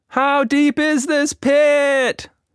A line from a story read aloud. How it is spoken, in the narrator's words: She shouted as they continued to fall